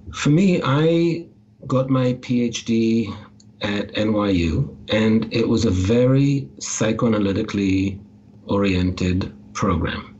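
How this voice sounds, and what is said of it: Slight, hard-to-place foreign accent. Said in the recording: “I have a bit of an accent ... my accent might be hard to place ... it's a little hard to place”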